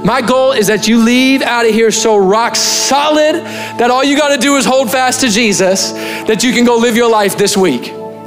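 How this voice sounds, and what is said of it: Loud, forceful preaching voice. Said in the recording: “I'm talking really loud. I'm not mad at you”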